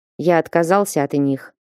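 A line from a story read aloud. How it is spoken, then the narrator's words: Plain. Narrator (Russian): ответил король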